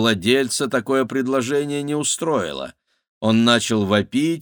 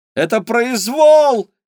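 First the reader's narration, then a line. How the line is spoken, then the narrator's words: Yelling. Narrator (Russian): вопила Кира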